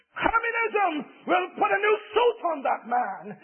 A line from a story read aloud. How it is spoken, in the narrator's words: a communist student, exclaimed